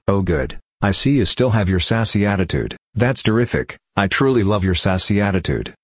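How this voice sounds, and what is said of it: Sarcastic tone of voice. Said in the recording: “in case you can't tell, I'm being sarcastic. This is my sarcastic voice.”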